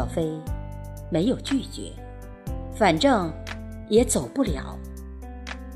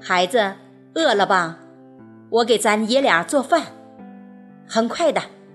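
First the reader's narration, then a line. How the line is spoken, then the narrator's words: Old man, laughing. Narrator (Chinese): 大爷笑说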